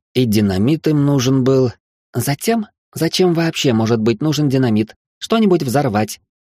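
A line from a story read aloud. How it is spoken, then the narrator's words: Enthusiastic exclamation. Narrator (Russian): с энтузиазмом воскликнула Хильда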